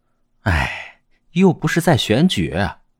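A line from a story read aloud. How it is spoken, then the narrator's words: Soft sigh. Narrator (Chinese): 钟兰人摇头轻叹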